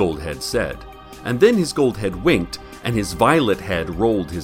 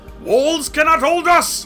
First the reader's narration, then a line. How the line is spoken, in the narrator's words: roared his green head